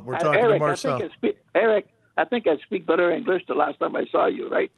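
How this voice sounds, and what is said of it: French-accented English. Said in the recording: “we love your accent, man. It's beautiful... the French accent”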